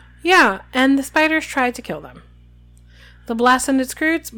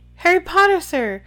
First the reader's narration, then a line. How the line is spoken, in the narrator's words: squeaked the elf, trembling from head to foot